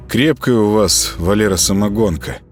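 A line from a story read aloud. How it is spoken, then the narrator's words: Mumbling. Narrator (Russian): промямлил Володаров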